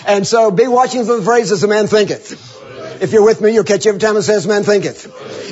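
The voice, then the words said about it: Mississippi Southern accent. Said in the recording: “my Mississippi Southern dialect”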